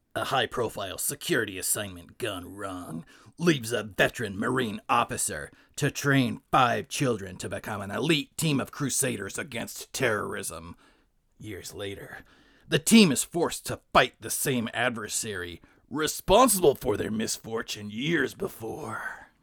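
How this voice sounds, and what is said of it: Dramatic movie trailer narrator voice. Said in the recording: “Trailer voice.”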